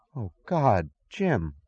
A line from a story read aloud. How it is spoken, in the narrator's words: she gasped